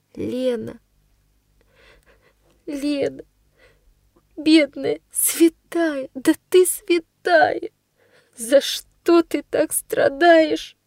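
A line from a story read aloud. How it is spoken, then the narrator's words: Sobbing. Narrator (Russian): рыдает она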